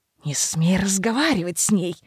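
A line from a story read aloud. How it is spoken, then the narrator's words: Hiss. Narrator (Russian): зашипел на него Родерик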